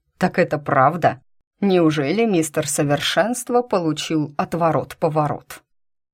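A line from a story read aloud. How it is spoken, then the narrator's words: Drowned by laughter. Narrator (Russian): Его голос потонул в новом взрыве хохота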